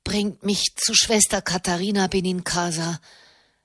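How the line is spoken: Wooden pleading voice. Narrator (German): bat er mit hölzerner Stimme

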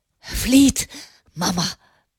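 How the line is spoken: Panting. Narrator (German): keuchte er

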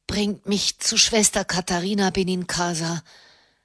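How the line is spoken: Wooden pleading voice. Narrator (German): bat er mit hölzerner Stimme

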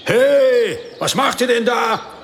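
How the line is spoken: Calling out. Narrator (German): rief jemand

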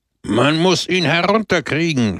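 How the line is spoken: Indignant shout. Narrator (German): schrie der Redner empört

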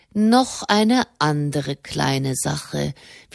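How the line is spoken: Slow repetition. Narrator (German): wiederholte die Dini langsam

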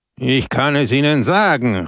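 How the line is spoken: Called out. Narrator (German): rief Peppone

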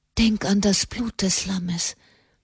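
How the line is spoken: Whispered in ear. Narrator (German): flüsterte ins Ohr

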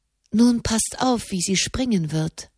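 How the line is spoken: Whisper. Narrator (German): flüsterte Elise

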